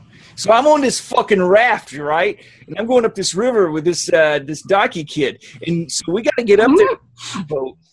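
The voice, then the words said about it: Weird put-on Southie accent. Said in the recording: “He's doing some weird... Some weird Southie accent.”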